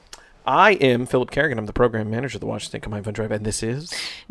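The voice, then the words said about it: Intense announcer-style radio voice. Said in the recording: “my intense radio voice”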